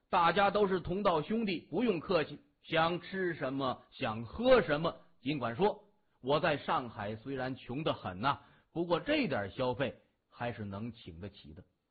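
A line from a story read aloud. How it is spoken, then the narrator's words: Loud and cheerful. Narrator (Chinese): 笑容满面的 大声说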